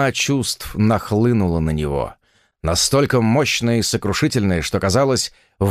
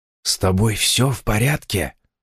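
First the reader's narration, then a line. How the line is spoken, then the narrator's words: Quiet question. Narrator (Russian): вполголоса спросил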